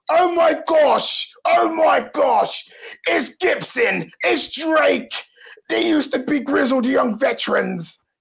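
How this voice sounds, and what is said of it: Imitates another person's voice. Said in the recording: “that was a nice Wade Barrett impersonation”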